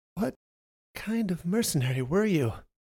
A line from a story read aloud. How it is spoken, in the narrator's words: she stammered